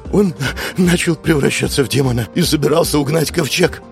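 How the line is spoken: Killer sobbing. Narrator (Russian): всхлипывая, произнес убийца

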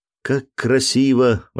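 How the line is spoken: Child exclaiming. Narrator (Russian): воскликнул маленький Джек

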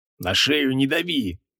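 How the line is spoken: Menacing deep guttural demand. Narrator (Russian): грозно потребовал креол утробным голосом

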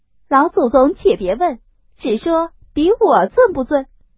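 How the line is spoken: Hurried laughing speech. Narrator (Chinese): 凤姐忙又笑说

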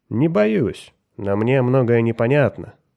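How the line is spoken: Calm objection. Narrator (Russian): спокойно возразил Меррик

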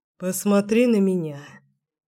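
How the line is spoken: Hoarse voice. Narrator (Russian): сказал хрипло

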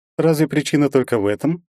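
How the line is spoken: Snide question. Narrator (Russian): ехидно поинтересовалась Алена

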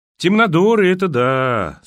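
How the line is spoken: Drawling. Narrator (Russian): протянул Ярослав

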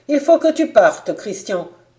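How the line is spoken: Abrupt exclamation. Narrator (French): s'écria-t-il brusquement

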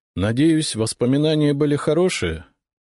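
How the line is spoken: Sad. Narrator (Russian): грустно сказал я

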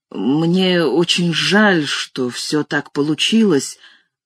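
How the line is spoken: Awkward mutter. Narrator (Russian): пробормотал я неловко

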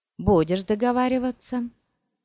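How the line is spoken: Hoarse curse from behind. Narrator (Russian): за собой хриплое проклятие

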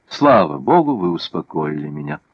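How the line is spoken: Relieved sigh. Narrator (Russian): облегченно вздохнула Екатерина

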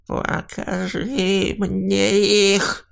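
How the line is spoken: Creaky, rasping voice. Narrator (Russian): проскрипел он

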